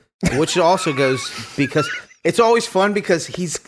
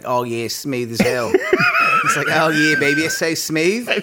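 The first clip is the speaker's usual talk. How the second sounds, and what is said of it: Put-on Philly accent. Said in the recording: “I can only imagine them having that Philly accent ... You sound fucking Australian ... Doing that Pennsylvania voice.”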